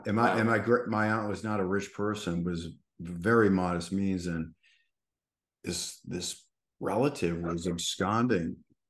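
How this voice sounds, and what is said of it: Massachusetts accent. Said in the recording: “it was in Massachusetts. That's where I'm from. If you couldn't tell my accent ... I'm a Yankee”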